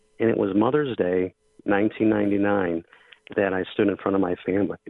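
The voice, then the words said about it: Choked up, emotional voice. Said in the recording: “I get a little choked up talking about this because it affects me so deeply”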